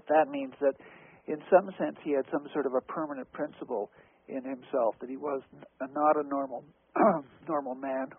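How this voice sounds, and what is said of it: Hoarse, failing voice. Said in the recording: “I'm losing my voice here. This is not good.”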